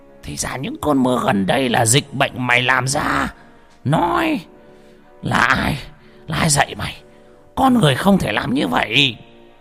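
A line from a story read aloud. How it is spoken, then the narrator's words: Roaring old man. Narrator (Vietnamese): Lão Mo gầm lên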